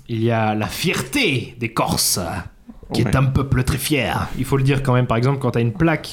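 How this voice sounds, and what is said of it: Strong regional French accent. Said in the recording (French): “Sacré accent.”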